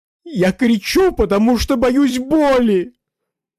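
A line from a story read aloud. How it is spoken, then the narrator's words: Sobbing captive. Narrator (Russian): рыдая, сказал привязанный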